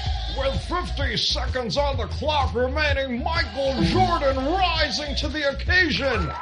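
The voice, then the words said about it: Sports announcer impression. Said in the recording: “Here's my best impression of Marv Albert.”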